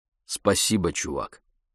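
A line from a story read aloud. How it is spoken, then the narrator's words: Plain. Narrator (Russian): сказал Обинзе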